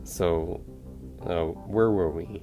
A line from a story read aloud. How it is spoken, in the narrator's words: Aaron asks, nervously